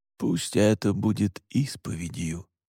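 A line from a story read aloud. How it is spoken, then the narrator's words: Quiet. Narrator (Russian): тихо сказал он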